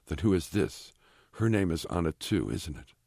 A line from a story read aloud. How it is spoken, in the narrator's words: Blank says, his voice quivering with emotion